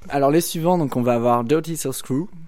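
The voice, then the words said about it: Put-on English accent. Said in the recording (French): “j'ai un super accent anglais ... j'ai un bon accent”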